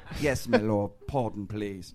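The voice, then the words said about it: Put-on British accent. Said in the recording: “why you get that British accent? You're from fucking Turtle Creek.”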